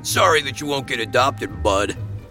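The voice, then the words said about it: Gruff character voice. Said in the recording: “in a gruff voice”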